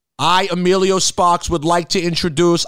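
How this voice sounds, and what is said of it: Put-on Boston accent. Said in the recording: “I have a Boston accent now ... Boston accent to the untrained ear is close enough to a Staten Island”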